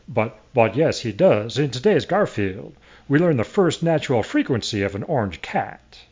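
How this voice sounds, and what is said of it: Deliberately bad Southern accent. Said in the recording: “he has a terrible Southern accent ... That was a terrible Southern accent. ... I know it's terrible”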